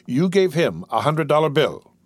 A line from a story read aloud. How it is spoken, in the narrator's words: he exclaimed